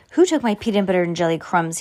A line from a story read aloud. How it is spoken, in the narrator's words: he exclaimed